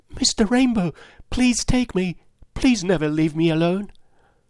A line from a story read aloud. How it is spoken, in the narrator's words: The ampelopsis cried